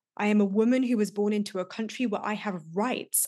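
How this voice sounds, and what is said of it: British accent. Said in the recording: “I have the benefit of a British accent.”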